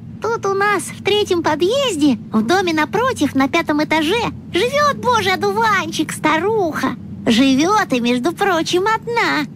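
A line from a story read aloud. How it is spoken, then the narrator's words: Squeaky, nasty giggling. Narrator (Russian): Противно хихикая, балбес запищал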